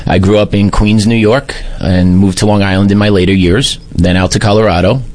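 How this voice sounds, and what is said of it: Heavy New York accent. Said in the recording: “you could tell I'm not a native. The accent is pretty heavy.”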